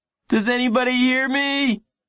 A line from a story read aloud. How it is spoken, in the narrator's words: He felt like howling, but instead he yelled